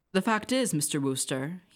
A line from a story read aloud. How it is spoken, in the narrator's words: he said